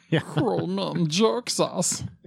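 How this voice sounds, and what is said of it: Raspy Gollum character voice. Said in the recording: “great Gollum impression ... is really good at the Gollum impression.”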